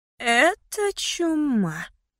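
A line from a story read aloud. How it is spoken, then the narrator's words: Drawling. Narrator (Russian): протянула Фиона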